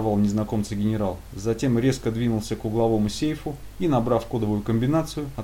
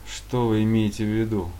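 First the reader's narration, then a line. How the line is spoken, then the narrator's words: Dry question. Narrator (Russian): сухо спросил хозяин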